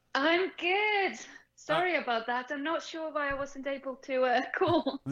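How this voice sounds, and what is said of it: British accent with Icelandic mix. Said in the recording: “we love the British accent... half British, half Icelandic, and I've got a bit of a mixture”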